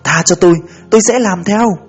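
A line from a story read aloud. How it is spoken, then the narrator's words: Terrified, almost pleading. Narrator (Vietnamese): Nỗi sợ hãi đã lên tới cực điểm, Trâm nói gần như van lại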